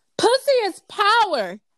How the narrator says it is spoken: Lucille yelled

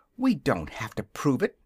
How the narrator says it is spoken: answered Dorothy indignantly

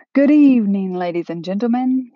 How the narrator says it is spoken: he said in a booming voice that rumbled up from the barrel of his round belly

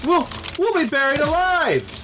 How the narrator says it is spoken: Robin shouted above the thunderous noise of the falling cubes of ice

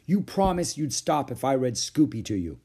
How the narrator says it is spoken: cried Beezus

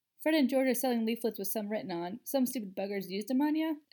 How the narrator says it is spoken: stifled another chuckle

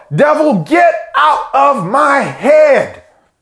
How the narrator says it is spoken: yell

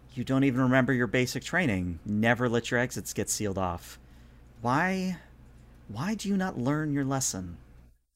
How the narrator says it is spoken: kind of sighs and says

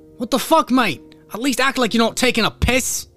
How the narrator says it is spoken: shouts

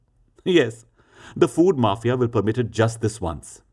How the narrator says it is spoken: Meher laughed

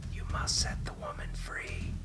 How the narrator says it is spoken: his voice whispered through hollow, dry lips

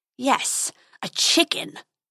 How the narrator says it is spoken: snarled the dragon

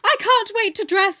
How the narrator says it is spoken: I cried

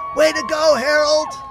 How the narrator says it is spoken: yelled

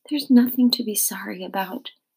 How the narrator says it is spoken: she said, so quietly I could barely hear her

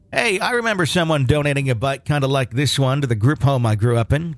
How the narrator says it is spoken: said happily

